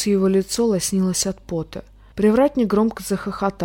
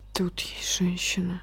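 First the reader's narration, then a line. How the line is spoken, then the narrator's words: Dropping to a whisper. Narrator (Russian): сказал Ван Лун голосом, невольно упавшим до шепота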